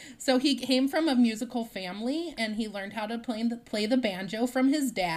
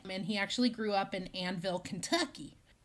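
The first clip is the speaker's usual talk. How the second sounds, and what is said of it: Sudden weird accent on one word. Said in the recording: “I don't know why I said Kentucky that way. That's really weird. ... I just all of a sudden got a weird accent there.”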